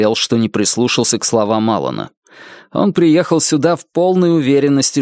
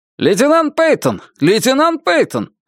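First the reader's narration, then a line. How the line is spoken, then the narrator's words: Officer shouting. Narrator (Russian): прокричал офицер из диспетчерской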